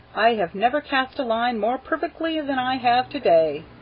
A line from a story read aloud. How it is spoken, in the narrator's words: says happily